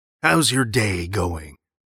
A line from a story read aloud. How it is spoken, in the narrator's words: he asked, voice deep and raspy, but clear